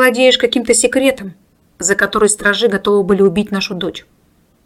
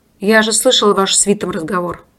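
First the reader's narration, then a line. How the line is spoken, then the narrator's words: Gloomy explanation. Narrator (Russian): мрачно пояснил Семен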